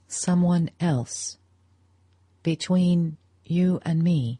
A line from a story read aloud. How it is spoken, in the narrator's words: He echoed her words slowly, as though they were only half-intelligible, and he wanted time to repeat the question to himself